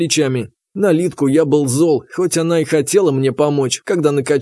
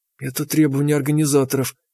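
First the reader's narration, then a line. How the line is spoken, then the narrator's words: Strangled whisper. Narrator (Russian): прошептала она сдавленно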